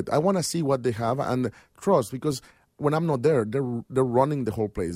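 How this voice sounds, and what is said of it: Mexican accent. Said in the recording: “the Mexican accent is amazing.”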